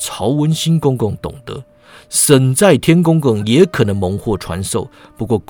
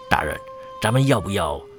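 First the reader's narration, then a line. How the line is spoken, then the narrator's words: Low, hesitant question. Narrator (Chinese): 官差压低音量，迟疑问道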